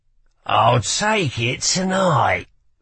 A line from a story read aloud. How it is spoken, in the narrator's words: he said with a sneer